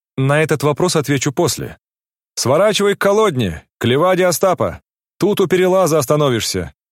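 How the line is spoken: Shouted. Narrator (Russian): крикнул он кучеру

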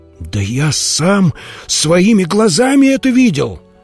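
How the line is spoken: Monk exclaiming. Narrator (Russian): воскликнул монах

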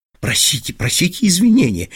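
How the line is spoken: Anxious group murmuring. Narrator (Russian): бормотали вокруг Штопеля встревоженные наследники

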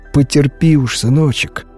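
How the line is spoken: Tender speech. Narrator (Russian): ласково говорила она

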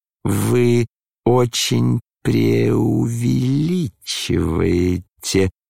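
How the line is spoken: Bored drawl. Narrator (Russian): протянул Иван Петрович с некоторой скукой

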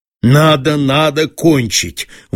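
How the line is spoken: Dull, stern repetition to himself. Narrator (Russian): твердил самому себе тупо и строго

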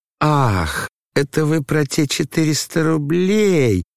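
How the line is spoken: Drawn-out sudden realization. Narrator (Russian): протянул Лебедев, точно лишь сейчас только догадался

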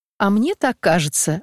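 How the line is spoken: Laughing reply. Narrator (Russian): отвечала она, смеясь

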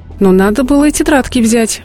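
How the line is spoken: Exclaimed. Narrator (Russian): воскликнула вторая

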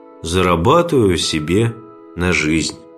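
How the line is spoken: Sad. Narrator (Russian): Второй печально произнес

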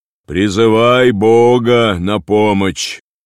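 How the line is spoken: Loud helmsman. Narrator (Russian): Кормчий громко сказал

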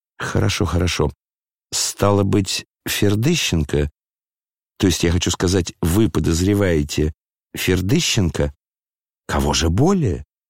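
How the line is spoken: Quiet. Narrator (Russian): тихо произнес Лебедев

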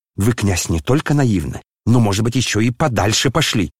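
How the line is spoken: Malicious smirking tone. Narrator (Russian): злобно усмехнулся племянник Лебедева

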